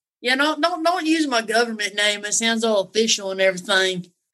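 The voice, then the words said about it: Southern US accent. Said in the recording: “I like your uh, accent. ... I'm from the South too ... from North Carolina”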